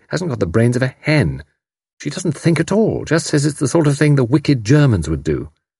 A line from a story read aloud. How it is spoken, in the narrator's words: said Tuppence scornfully